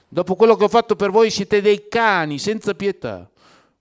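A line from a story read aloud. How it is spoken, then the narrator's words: Starting to shout. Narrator (Italian): cominciava a gridare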